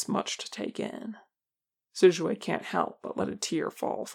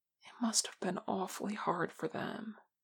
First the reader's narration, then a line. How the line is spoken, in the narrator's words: whispers